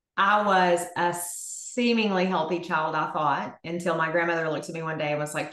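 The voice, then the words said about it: Texan Southern accent. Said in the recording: “an awesome Texan accent ... Fellow Southerner”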